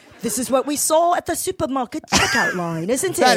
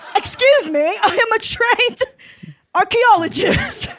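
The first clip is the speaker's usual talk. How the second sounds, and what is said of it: Put-on accent. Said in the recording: “I had this accent approved by Minnie Driver in the back.”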